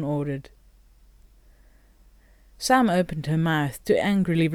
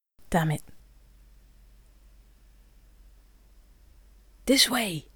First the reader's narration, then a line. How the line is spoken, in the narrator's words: Gainori hissed behind them